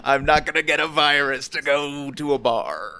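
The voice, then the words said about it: Pirate voice. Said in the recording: “I don't know why I started talking like a pirate.”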